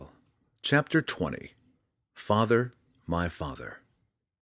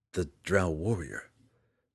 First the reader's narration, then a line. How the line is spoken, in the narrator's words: Drizzt was barely able to whisper